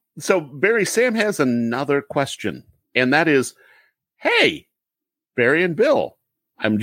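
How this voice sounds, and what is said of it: Usual voice. Nothing is said of it.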